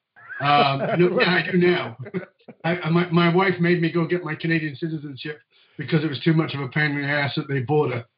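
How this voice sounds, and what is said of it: Mixed, hard-to-place accent. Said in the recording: “a Labradoodle accent, which means it's kind of muddled ... my accent's kind of muddled, and that's why people don't know where I'm from”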